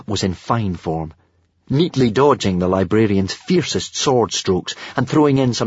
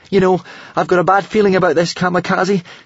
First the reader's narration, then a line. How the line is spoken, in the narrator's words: said Hiccup, slightly nervously